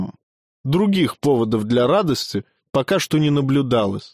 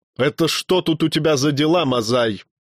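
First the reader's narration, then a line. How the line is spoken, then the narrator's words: Stern bark. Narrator (Russian): строго рявкнули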